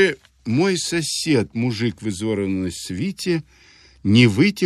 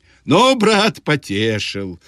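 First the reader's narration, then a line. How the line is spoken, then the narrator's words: Shouted. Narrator (Russian): кричала Балдуй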